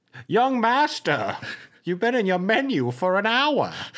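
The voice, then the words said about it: Bad librarian character voice. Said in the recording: “That was my librarian impression. I didn't say it was good... the bad impressions of librarians”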